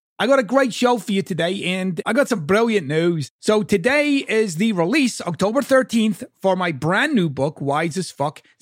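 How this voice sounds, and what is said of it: Mixed American and Scottish accent. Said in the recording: “my kind of bastardized accent. I'm this half American, half Scottish thing”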